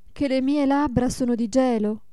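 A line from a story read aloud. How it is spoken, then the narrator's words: Mother's exclamation. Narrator (Italian): esclamò la madre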